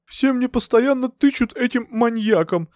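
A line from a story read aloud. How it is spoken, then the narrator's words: Tearful speech. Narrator (Russian): сквозь слезы произнесла Скоробогатова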